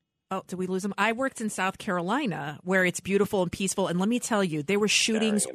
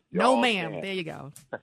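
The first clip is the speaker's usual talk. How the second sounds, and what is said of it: Put-on Texas drawl. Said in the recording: “my little Texas drawl”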